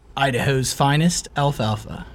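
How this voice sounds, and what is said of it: Put-on, almost British accent. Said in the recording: “Almost sounds British, but not as British.”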